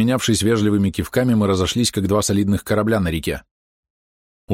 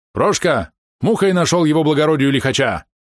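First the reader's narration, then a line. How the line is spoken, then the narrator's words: Shouting. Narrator (Russian): крикнул сопровождавшему его помощнику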